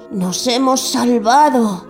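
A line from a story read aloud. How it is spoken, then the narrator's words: Relieved sigh. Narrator (Spanish): suspiró, dejándose caer en el agua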